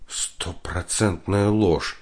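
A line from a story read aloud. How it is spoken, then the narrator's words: Quiet, fearful. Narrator (Russian): тихо сказала она, опасаясь, что ее ребенок узнал главную тайну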